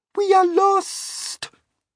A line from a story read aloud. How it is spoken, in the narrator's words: Miss Spider cried